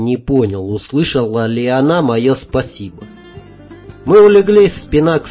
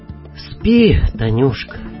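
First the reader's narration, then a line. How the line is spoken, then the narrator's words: Tender, choked-up. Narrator (Russian): неожиданно ласково сказал я, и у меня почему-то защипало в носу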